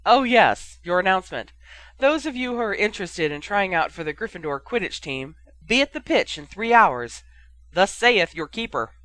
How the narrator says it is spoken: he laughed, adding

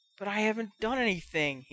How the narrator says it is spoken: he whispered

